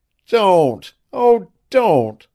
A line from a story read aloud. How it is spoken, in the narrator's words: sobbed the girl